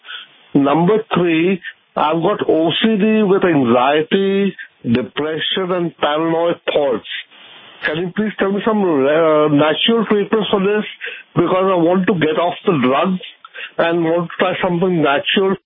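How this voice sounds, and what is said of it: Indian English accent. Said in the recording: “what's your accent? ... I'm from India.”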